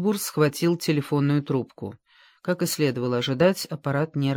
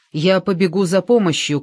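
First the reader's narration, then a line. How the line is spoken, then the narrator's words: Shouted. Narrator (Russian): крикнул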